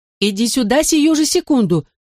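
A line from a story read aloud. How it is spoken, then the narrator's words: Shouted. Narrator (Russian): крикнула мне мама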